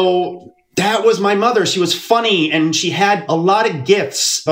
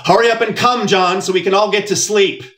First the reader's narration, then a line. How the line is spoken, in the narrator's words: my mother shouted through the thin wall